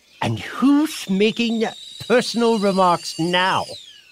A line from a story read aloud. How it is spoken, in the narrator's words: The Hatter asked triumphantly